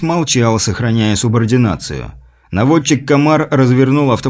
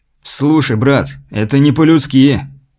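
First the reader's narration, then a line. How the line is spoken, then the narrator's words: Angry. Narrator (Russian): зло сказал Айс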